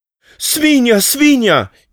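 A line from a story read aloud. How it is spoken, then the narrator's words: Pleading. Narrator (Slovenian): je prosila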